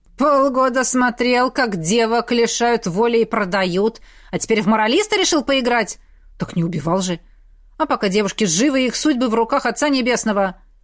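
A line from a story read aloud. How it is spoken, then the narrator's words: Near-growl of anger. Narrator (Russian): Игорь почти зарычал от злости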